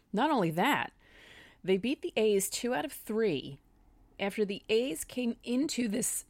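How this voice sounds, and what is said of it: Voice suddenly giving out. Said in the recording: “I'm suddenly losing my voice.”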